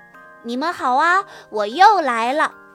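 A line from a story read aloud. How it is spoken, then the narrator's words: Loud, proud. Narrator (Chinese): 哈瓦尔昂首挺胸地大声地说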